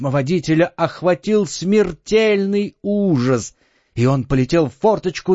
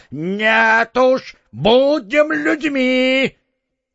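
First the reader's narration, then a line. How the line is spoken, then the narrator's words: Parrot shouting. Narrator (Russian): попугай закричал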